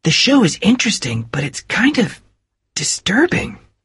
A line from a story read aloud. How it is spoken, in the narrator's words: whispered Nick to Bill